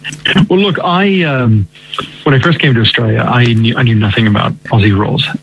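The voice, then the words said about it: American accent. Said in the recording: “with your American accent”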